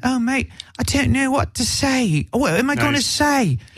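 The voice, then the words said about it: Put-on British accent. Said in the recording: “this is my best British accent ... He just sounds like Oliver Twist ... that's my impression of him”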